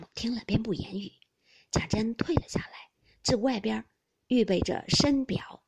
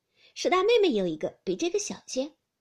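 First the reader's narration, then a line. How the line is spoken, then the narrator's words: Laughing. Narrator (Chinese): 宝钗笑道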